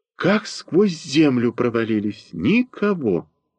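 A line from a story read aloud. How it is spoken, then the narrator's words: Spoken after deep sigh. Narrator (Russian): глубоко вздохнув, произнесла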